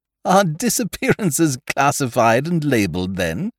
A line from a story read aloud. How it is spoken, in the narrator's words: I laughed